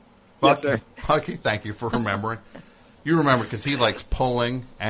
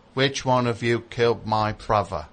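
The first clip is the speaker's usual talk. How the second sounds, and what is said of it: British accent, Michael Caine impression. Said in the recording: “I'll do my British accent ... It's Michael Caine, right? ... That's pretty good.”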